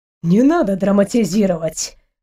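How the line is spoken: Snorting. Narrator (Russian): хмыкнул Амир

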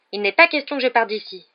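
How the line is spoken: Fierce retort. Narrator (French): répliqua Harry d'un ton féroce

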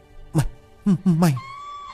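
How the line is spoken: Trembling voice. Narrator (Vietnamese): Giọng của Lực run rẩy

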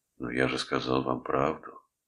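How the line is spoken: Tired objection. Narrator (Russian): устало возразил Фентон

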